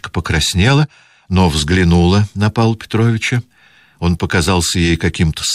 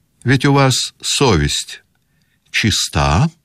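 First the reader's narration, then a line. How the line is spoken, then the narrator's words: Plain. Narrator (Russian): спросил он ее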